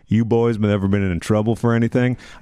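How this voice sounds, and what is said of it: Put-on regional accent. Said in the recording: “If you ever hear it in that accent”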